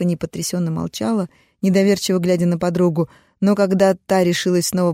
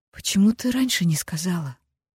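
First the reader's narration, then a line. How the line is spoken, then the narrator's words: Quiet question. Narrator (Russian): тихо поинтересовалась Стефани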